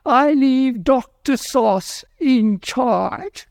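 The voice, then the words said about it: Phony British accent. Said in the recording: “he had this phony British accent.”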